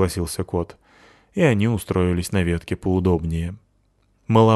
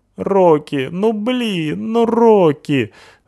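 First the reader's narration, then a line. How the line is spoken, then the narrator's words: Groaning, squashed. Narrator (Russian): Стонал мальчик, придавленный к газону огромной тяжеленной собачищей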